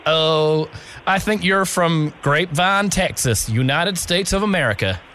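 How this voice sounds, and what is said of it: Fake American accent. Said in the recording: “I was just seeing if you would believe me that I was had an American accent ... he's got the worst American accent”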